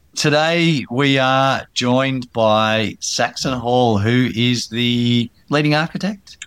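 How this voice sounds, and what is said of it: Husky, congested voice. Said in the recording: “I got my sexy voice on today just for you ... This sexy voice is care of my four-month-old who came home from Canberra with a cold”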